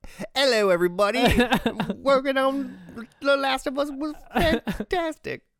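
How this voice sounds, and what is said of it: Poor put-on British accent. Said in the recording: “That was my British accent, and this is why Americans can't do British accents.”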